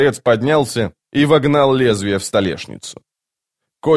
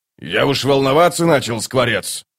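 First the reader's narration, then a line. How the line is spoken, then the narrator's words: Grumbling. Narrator (Russian): проворчал первый кулак Дуджик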